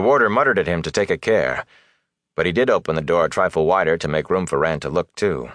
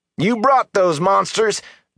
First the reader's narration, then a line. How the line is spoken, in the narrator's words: Darl roared